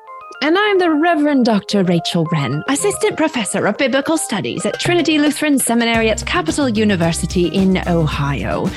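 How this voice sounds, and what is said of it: Put-on British accent. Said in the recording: “Not really sure why I'm speaking in a British accent right now.”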